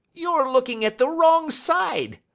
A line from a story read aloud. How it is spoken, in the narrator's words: he shrieked